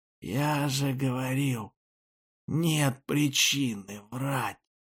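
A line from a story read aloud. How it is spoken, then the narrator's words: Wheezing, rattling chest. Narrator (Russian): при дыхании слышались хрипы глубоко в груди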